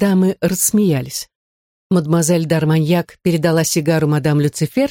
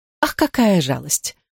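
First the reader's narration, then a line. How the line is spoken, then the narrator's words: Sighing. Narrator (Russian): вздохнула мадемуазель Дарманьяк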